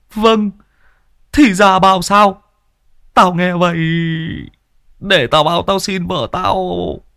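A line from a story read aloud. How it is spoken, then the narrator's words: Tearful whimpering. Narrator (Vietnamese): Chú ở đây mếu máo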